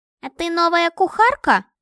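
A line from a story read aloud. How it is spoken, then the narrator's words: Thin squeaky voice. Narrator (Russian): пропищал тонким голоском, совсем не подходящим к его грозному виду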